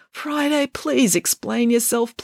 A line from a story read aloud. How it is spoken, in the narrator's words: pleaded Bernie